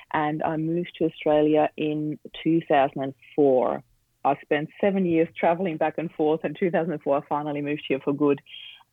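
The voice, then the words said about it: Austrian accent. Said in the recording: “I grew up in Austria. And that's where the accent comes from”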